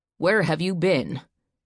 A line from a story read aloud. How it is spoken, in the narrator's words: his father asked angrily